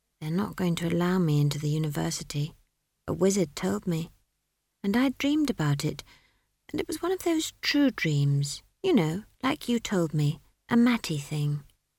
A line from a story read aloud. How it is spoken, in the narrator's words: Esk said in a low voice